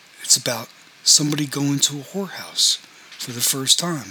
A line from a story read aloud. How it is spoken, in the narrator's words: said Ron